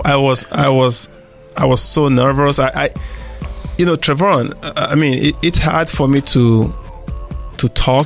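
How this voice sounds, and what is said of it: Speaks with a noticeable accent. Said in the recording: “you were uncomfortable with your accent ... people, you know, sometimes don't hear me because of my accent”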